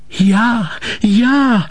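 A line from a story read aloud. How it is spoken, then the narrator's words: Calling out. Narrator (German): rief Ensel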